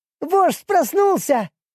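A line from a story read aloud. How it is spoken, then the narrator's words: Joyful squeak. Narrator (Russian): радостно пискнула она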